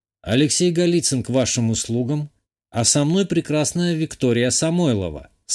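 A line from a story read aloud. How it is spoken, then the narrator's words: Calm reply. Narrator (Russian): спокойно ответил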